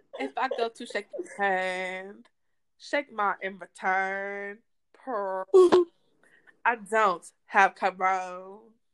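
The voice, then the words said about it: Imitates another person's voice. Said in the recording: “in my best Rolling Ray accent”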